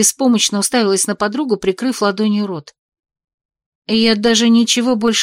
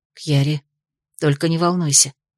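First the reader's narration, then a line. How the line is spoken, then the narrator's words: Quiet and hurried. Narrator (Russian): заговорила тихонько и торопливо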